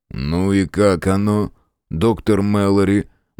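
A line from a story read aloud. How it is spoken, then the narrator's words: Gloomy inquiry. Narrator (Russian): мрачно осведомился Фрейзер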